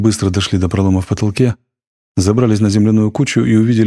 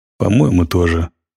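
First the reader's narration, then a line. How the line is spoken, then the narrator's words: Grumble. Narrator (Russian): пробурчал Зев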